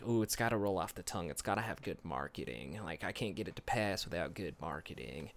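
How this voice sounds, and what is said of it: Imitates another person's voice. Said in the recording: “I think that's my Lindsey Graham impression”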